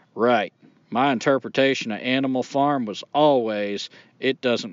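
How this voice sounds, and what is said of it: Put-on Texas accent. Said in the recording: “I will do a Texas accent. ... I'm keeping up the accent tradition.”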